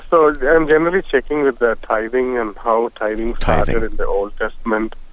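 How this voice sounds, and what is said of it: Noticeable accent, hard to understand. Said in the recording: “I'm having trouble understanding you. I know you have a bit of an accent there”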